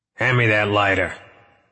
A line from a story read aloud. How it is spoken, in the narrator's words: DeGusta barked